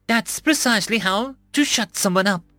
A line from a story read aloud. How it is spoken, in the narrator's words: she chirped